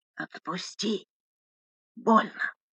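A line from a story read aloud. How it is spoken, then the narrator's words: Hoarse through pain. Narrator (Russian): Сквозь обморочную боль хрипела Лика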